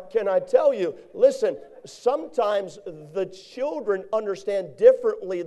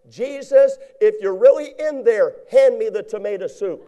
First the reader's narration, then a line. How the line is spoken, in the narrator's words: got fearful again, and he hollered inside